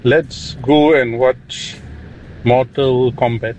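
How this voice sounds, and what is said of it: Put-on sexy voice. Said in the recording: “This is my sexy voice.”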